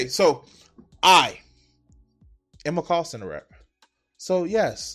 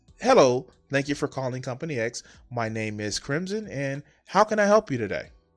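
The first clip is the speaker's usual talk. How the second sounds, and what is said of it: Put-on customer service phone voice. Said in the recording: “fake-ass voice ... put on the fake voice”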